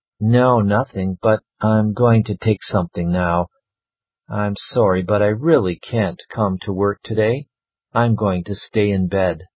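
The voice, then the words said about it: Sick, congested voice with cold. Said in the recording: “You sound terrible. ... I think I've caught a really bad cold ... a cold like that”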